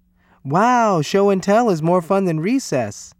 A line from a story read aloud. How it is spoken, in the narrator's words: they yelled